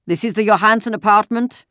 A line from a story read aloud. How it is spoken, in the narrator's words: a deep voice asked the question loudly in the terribly accented Danish